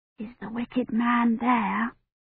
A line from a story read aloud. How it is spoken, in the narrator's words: Agnes whispered, her head jammed against Kivrin's knee